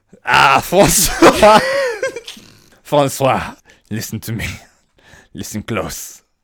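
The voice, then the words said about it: Put-on French accent. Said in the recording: “That's all the French accent I know.”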